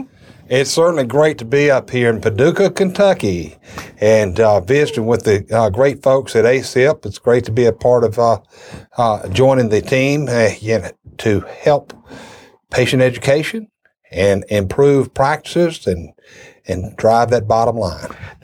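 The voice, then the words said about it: Southern Alabama accent. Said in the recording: “if you're trying to place the accent of ... you're not from Massachusetts or Brooklyn... I'm actually from southern New York. Actually, very southern, over in Alabama.”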